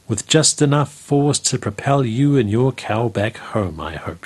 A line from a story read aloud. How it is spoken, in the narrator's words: she said